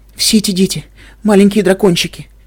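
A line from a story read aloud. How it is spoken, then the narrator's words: Sobbing. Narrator (Russian): она снова зарыдала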